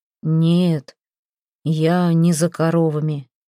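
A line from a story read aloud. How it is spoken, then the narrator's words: Muffled, hollow voice. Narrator (Russian): глухо сказал он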